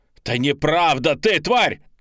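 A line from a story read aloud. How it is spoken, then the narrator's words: Shout. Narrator (Russian): закричал я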